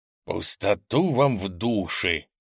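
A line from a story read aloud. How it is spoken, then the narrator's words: Growled reply. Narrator (Russian): прорычал в ответ голос зеленого хакера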